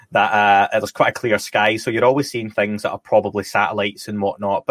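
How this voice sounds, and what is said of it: Scottish accent. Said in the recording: “I'm Scottish, as people can probably tell from the dodgy accent”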